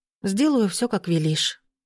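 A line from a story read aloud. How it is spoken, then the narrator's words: Sighing. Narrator (Russian): вздохнула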